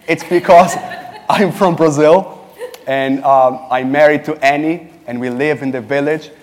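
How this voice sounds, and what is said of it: Latin-sounding Brazilian accent. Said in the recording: “accent, a Latin, very charming Latin accent”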